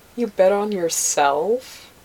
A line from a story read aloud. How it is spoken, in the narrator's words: She asked, laughing